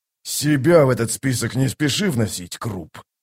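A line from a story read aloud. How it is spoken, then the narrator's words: Growl. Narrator (Russian): прорычал Кол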